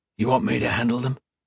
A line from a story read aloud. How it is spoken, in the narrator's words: Cook whispered